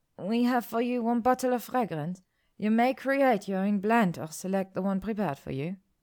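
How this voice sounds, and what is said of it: Spanish-tinged accent. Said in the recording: “the woman said in a Spanish tinged accent”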